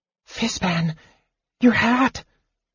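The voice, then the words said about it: Whispered line. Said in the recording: “Tass risked whispering.”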